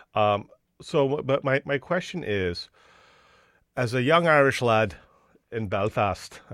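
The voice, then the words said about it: Poor put-on Irish accent. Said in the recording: “that's a shit accent.”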